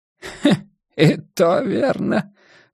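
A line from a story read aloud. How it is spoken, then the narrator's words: Chuckle. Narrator (Russian): хохотнул жестянка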